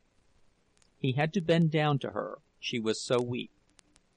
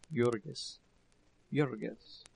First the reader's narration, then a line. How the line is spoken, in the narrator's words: he heard her voice faintly